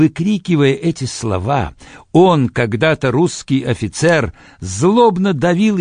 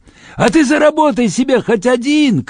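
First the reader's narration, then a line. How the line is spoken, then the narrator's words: Shouted. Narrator (Russian): крикнул он мне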